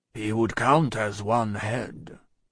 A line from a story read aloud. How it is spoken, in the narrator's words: observed Jacques III in a low voice